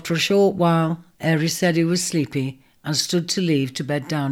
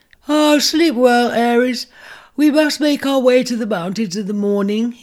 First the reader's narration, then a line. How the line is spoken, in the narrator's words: he yawned